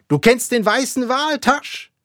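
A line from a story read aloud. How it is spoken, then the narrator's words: Shouting. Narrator (German): schrie Ahab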